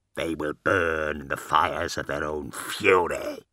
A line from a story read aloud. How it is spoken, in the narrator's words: growled Cabanda, relishing the thought of it